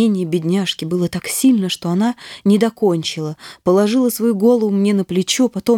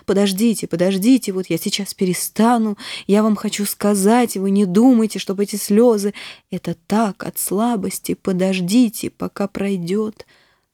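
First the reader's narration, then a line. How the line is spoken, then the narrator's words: Speaking between sobs. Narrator (Russian): Она говорила между рыданиями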